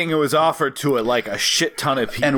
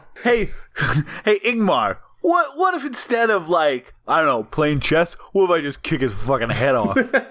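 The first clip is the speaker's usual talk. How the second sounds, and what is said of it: Thick put-on Brooklyn accent. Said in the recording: “Max von Sydow, famously thick Brooklyn accent.”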